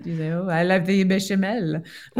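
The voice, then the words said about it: Good put-on French accent. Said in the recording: “You can say it with a French accent ... that's very good ... with the French accent. Ooh la la.”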